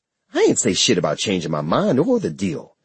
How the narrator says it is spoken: she snapped

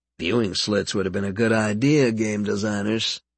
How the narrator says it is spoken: he muttered

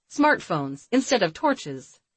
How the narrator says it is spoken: Jessica sputtered

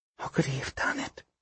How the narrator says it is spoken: She murmured

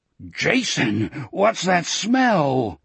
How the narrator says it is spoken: Wolf groaned

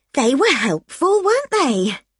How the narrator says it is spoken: I said brightly

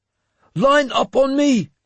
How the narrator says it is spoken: he shouted

